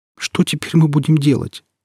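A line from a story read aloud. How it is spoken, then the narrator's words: Asked, recovering from sobbing. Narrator (Russian): спросила Иветта, которая рыдала всю дорогу, и только теперь стала понемногу приходить в себя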